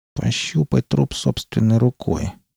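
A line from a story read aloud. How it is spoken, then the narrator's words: Through gritted teeth. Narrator (Russian): процедил Квинтон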